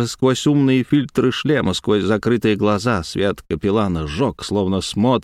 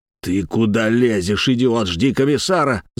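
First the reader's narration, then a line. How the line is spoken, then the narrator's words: Growl. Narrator (Russian): зарычал Самохин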